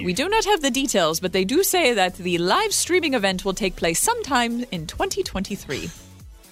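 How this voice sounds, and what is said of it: Put-on British accent. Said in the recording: “this is the last time you're going to hear the British accent this morning”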